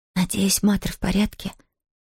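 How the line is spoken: Barely audible. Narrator (Russian): еле слышно проговорила Зия

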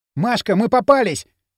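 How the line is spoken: Shouting. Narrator (Russian): закричал Кирилл

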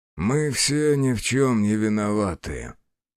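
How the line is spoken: Muffled reply. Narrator (Russian): глухо отозвался Бучило

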